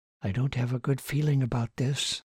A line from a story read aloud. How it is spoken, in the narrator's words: Susan said quietly